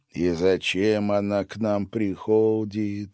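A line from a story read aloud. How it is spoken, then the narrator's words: Grumbling. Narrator (Russian): ворчал он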